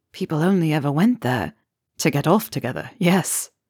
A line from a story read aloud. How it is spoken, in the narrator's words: laughed